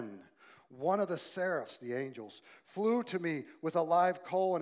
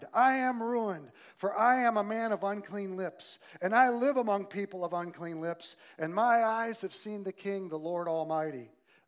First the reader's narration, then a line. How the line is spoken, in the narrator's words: cried